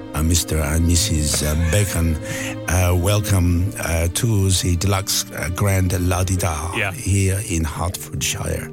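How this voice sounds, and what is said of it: Put-on French accent. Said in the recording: “in a beautiful French accent”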